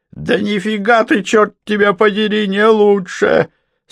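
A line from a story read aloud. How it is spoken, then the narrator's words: Mocking, then laughing. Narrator (Russian): Снова повторил он и издевательски расхохотался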